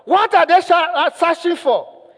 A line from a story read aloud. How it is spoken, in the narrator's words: the man asked, he shouted